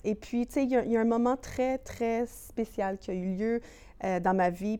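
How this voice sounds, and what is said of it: Western Canadian French accent, anglophone-sounding. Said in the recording (French): “Mon accent de l'Ouest, et tout le monde dit « Ah, t'es-tu anglophone? » ... on parle comme ça, dans le fond, c'est notre accent de l'Ouest.”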